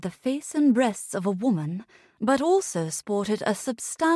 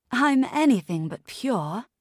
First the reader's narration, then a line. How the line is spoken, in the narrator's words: Gillian chuckled